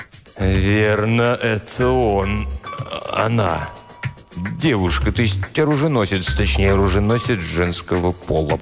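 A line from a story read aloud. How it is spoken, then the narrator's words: Mumbling. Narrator (Russian): промямлил Тристовер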